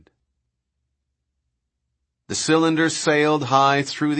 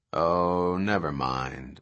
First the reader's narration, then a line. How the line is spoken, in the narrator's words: Malcolm said calmly